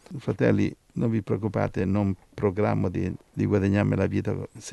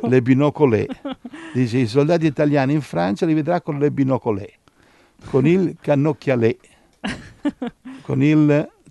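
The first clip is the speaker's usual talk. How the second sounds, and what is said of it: Put-on French accent. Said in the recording (Italian): “Ti piace il mio accento francese? ... Sì, è bellissimo.”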